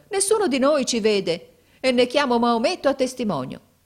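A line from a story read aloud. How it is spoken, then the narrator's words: Exclaimed. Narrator (Italian): esclamò mio fratello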